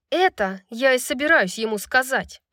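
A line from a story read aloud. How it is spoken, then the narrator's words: Growling. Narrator (Russian): прорычала Брайс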